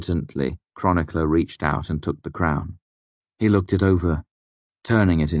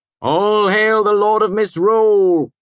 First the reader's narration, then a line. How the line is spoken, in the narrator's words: he shouted